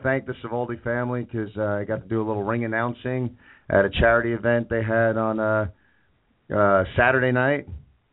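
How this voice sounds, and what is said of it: Strained, partly lost voice. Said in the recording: “I'm losing my voice a little bit after getting in there and shouting at the crowd ... the voice is a little bit. It's not 100%”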